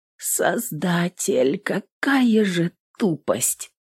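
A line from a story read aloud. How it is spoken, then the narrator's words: Whisper. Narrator (Russian): прошептала в ночи Эвелин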